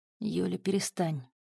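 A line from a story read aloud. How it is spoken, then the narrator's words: Quiet. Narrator (Russian): тихо сказал Клык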